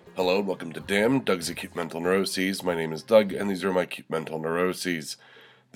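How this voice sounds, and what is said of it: Congested, stuffed-up voice. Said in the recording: “You can probably hear from my voice. I'm a little stuffed up. ... Goddamn head cold”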